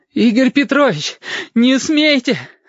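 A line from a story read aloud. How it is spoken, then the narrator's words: Gurgling exhale. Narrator (Russian): С каким-то бульканьем выдохнул Сашка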